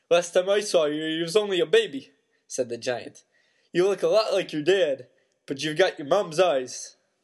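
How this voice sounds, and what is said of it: Hagrid character voice, shifting accent. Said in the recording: “that accent is changing a lot”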